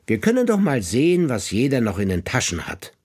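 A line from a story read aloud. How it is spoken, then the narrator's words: Feigned cheerfulness. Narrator (German): gibt er sich fröhlich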